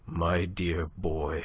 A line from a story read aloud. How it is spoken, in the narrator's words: His lip trembled, and there was a huskiness in the voice that murmured